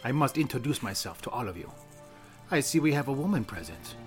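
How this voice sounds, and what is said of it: Inconsistent put-on Italian accent. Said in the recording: “That's an Italian accent, isn't it? ... You're all over the place, right. But it's good. ... Like, switch your accent. ... I have a fluid accent.”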